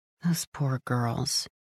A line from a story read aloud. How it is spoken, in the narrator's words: I murmur